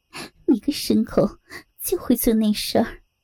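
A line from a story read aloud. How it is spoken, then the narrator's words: Laughing hard. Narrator (Chinese): 美凤笑得弯下了腰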